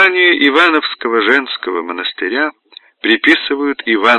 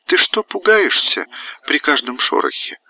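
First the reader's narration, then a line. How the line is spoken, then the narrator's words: Gentle, kind. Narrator (Russian): ласково сказала игуменья Елизавета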